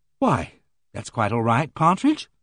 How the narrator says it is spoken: said Joanna soothingly

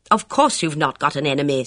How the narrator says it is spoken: said Bess Sedgwick impatiently

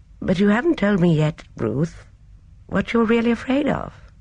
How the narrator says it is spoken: Miss Marple said in a faintly puzzled voice

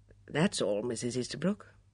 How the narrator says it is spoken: said quietly

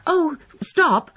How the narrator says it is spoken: cried Emma

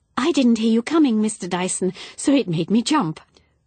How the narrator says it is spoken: said quickly and brightly

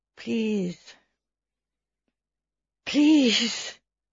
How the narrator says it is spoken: the man said in a weak voice

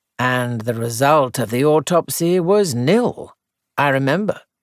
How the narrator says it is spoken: said gravely

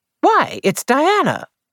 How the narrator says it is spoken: she exclaimed

